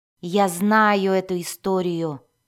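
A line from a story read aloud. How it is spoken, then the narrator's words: Grumbling. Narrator (Russian): проворчал Мозой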